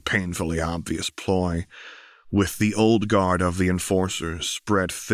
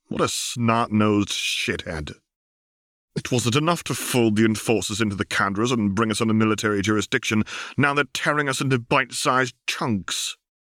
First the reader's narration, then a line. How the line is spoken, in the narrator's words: Vi blurting out